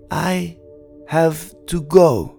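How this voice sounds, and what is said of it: Slow speech, thick accent. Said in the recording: “said slowly in a thick accent.”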